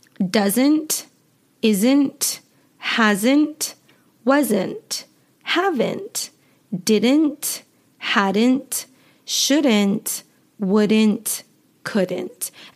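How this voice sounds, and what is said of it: American accent, dropped final T. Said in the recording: “my accent, I do not pronounce the T at the end of words in my natural everyday speaking.”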